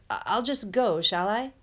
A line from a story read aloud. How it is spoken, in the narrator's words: Harry stammered